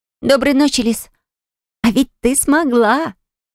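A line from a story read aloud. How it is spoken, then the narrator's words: Joyful exclamation. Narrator (Russian): вновь радостно воскликнула подруга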